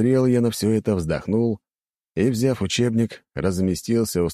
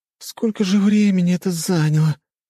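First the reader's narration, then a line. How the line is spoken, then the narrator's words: Moaning girl. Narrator (Russian): простонала девушка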